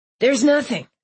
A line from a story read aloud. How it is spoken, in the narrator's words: Nelson snapped